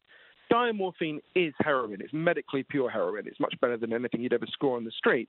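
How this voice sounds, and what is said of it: Posh British accent. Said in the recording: “in Britain, where I'm from, as you can tell from my weird Downton Abbey accent”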